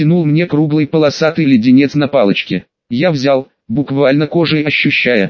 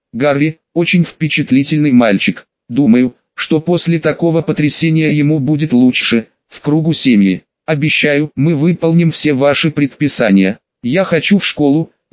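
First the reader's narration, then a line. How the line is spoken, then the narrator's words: Gentle speech. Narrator (Russian): Петунья мягко сказала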